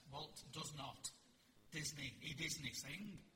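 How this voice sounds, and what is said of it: Put-on Scottish accent. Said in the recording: “Scottish accent.”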